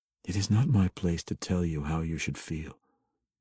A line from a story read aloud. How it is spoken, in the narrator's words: Drizzt said evenly